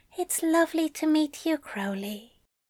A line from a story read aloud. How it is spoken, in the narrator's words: Aziraphale whispered